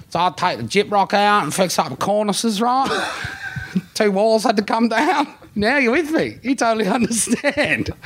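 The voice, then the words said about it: Put-on Australian tradesman accent. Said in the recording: “tradie accent”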